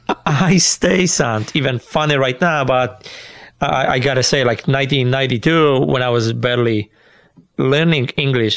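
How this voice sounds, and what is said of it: Polish accent. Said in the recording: “with my accent he barely understand me ... you had a Polish accent”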